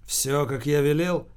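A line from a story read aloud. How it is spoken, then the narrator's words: Menacing question. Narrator (Russian): грозно спросил Верзилу Холмогоров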